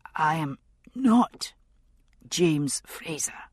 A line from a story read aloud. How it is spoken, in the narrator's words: agreed hoarsely, and had to stop to cough